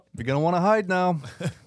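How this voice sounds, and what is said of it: Robert De Niro impression. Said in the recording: “We got De Niro ... That's a really good impression ... how good the impression was that that was Bobby”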